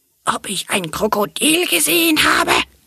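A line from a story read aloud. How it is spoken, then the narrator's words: Furious rattling snake's question. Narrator (German): fragte die doppelt gescheckte, klappernde Riesenschlange mit fürchterlich wütender Stimme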